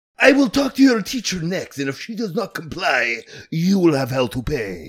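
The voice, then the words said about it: Put-on accent. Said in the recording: “I'm not sure if I'm allowed to do that accent”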